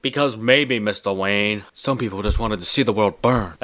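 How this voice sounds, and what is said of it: Poor impression of a film butler. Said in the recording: “my horrible Alfred impression”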